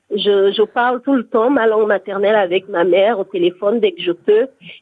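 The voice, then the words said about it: Gabonese-accented French. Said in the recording (French): “Je chéris mon accent.”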